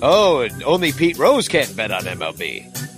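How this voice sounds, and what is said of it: Announcer voice. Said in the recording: “Do you like my announcer voice?”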